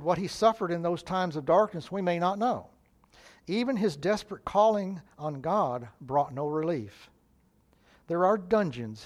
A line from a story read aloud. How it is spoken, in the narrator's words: said